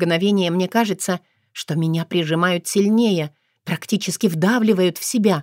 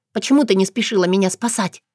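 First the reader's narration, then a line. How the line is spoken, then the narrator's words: Indignant whisper. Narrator (Russian): Шепотом возмущаюсь я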